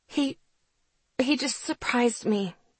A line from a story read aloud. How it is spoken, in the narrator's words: I mumbled